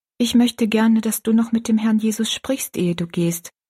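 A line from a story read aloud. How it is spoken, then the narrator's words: Plain. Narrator (German): sagte Rosalie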